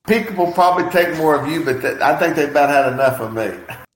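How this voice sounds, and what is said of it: Southern American accent. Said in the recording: “I love that Southern accent, man. I'm like mesmerized by it. It kind of draws me in.”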